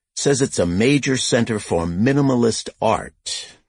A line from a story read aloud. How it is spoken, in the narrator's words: Lucas said